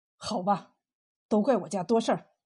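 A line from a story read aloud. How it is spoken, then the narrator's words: Resolute, gritted teeth. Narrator (Chinese): 他横下心来，一咬牙对冯三喜说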